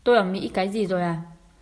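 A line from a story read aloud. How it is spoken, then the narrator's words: Cold sneering question. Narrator (Vietnamese): Hứa Tình cười nhạt hỏi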